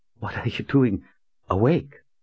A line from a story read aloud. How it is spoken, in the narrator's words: stammered